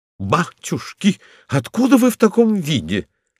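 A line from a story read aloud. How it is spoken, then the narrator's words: Exclamation. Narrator (Russian): воскликнула она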